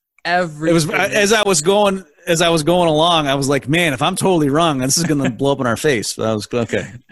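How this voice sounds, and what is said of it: American accent. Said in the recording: “Your listeners can tell from my accent, I am a true American.”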